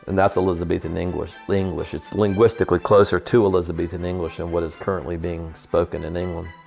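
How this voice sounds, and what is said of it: Soft non-rhotic Southern Tidewater drawl. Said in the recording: “my accent, coming from Richmond, I've got a form of what is called the Tidewater accent ... It's called a non-rhotic accent. It's very soft. You drawl, you hold your vowel, and you pull the R out of the word.”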